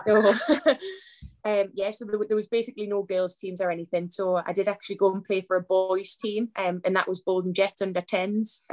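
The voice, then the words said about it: Northern English accent. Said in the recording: “obviously up north, as you can tell by the accent.”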